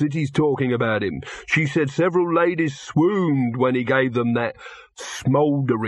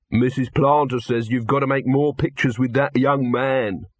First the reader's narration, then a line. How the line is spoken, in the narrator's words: said Bezam